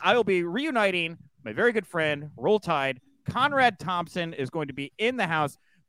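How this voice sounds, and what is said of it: Texan accent. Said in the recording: “I have an accent too. I'm from Texas”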